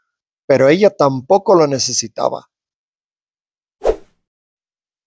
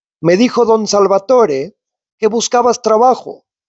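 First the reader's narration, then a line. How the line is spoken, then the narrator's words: Plain. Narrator (Spanish): dijo el farolero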